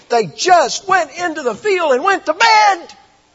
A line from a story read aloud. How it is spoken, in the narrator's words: He screamed